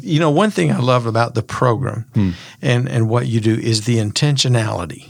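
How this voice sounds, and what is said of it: Slow Southern American accent. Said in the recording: “our Southern accent ... you do need to speed up a bit”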